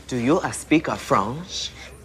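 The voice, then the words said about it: Fake French accent. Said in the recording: “I translate in the French accent.”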